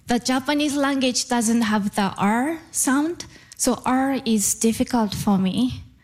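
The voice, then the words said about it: Japanese accent in English. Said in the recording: “I still have a Japanese accent.”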